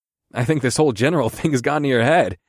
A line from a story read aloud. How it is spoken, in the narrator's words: I chuckled